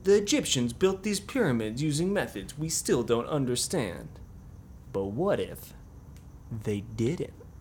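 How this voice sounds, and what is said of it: Dramatic TV documentary narrator impression. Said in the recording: “This is my impression of Ancient Aliens ... they'll always do, like, the dramatic reveal”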